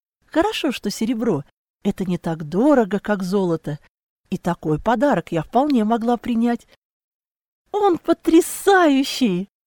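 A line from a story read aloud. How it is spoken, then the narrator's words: Squeak. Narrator (Russian): Все же пискнула я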